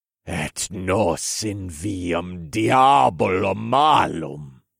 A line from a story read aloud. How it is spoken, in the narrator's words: I roared